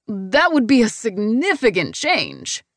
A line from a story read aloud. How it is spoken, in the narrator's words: Mark whines